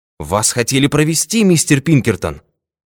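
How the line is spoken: Exclamation. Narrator (Russian): воскликнул дежурный

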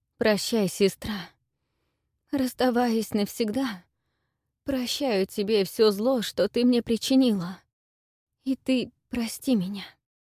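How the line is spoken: Trembling voice. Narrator (Russian): сказала девушка дрожащим голосом

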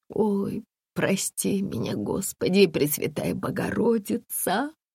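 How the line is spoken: Muffled wailing with sobs. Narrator (Russian): завыла Татьяна, закрыв лицо обеими руками и судорожно всхлипывая

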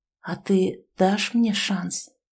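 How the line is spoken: Quiet, near whisper. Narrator (Russian): тихо, почти шепотом спросил

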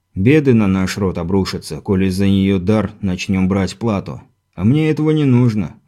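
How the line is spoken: Sighing innkeeper. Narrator (Russian): вздохнул трактирщик

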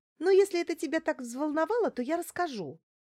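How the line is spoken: Carefree babbling. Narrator (Russian): пролепетала беззаботно Лариса

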